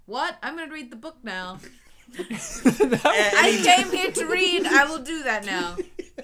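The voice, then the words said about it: Imitates another person's voice. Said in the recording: “She nailed that Dick Van Dyke impersonation.”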